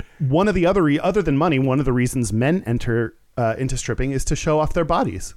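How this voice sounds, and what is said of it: Usual voice. Nothing is said of it.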